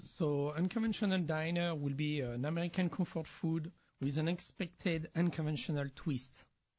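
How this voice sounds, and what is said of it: French accent. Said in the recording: “I like your fake French accent. It's really working on the show.”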